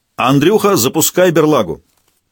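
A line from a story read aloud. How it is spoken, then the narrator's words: Loud command. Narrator (Russian): Толян громко скомандовал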